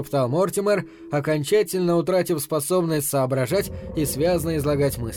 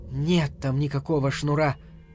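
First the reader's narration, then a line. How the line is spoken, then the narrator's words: Barely audible. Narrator (Russian): сказала она чуть слышно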